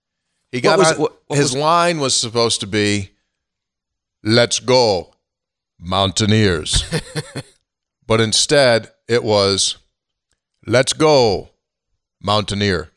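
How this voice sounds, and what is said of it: Poor deep-voice impression, sounds Jamaican. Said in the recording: “He's not from Jamaica. What accent are you doing? ... you're really good at accents or imitations. That wasn't one of your best. ... So my James Earl Jones is horrific. ... Terrible. ... It needs work.”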